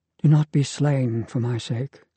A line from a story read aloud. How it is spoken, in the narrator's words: Lily Maria says in a sad, haunted voice